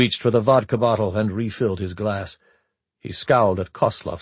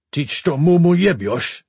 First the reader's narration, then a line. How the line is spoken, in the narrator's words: he growled